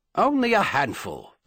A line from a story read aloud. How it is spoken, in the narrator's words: the Duke replied impatiently